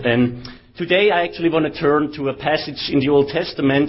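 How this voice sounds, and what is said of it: German accent in English. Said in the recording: “I think you can still hear that I have a German accent”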